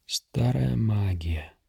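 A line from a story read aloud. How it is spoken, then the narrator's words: Quiet. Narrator (Russian): тихо сказал Ринарин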